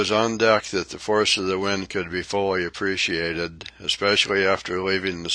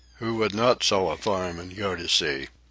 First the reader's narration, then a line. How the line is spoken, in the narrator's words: Jack grimly mutters